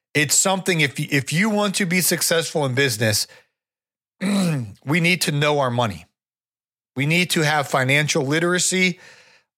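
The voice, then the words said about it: Hoarse, strained voice. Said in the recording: “I'm losing my voice ... get my voice back”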